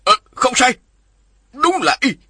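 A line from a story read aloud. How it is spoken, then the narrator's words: Sudden shout. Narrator (Vietnamese): đột nhiên lão la lên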